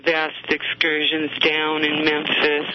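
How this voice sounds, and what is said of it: Put-on Southern American accent. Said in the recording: “Thought I'd have some of my southern accent today.”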